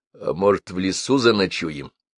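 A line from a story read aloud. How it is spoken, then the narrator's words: Tentative suggestion. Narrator (Russian): предложил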